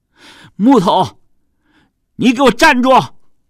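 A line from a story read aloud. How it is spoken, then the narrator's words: Panting shout. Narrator (Chinese): 陈和一边喘息一边喊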